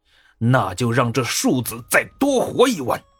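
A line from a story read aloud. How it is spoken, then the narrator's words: Angry shout. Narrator (Chinese): 朱温还在气头上呢，愤愤地吼了一声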